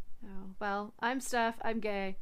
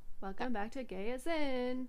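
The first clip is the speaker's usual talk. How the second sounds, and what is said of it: Sing-song voice. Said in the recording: “I did the sing song voice again.”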